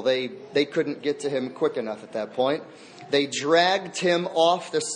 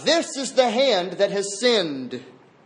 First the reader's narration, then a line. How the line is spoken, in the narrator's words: he shouted out